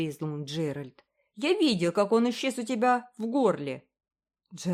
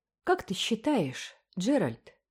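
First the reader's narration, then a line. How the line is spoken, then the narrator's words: Soft question. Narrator (Russian): мягко спросила Энн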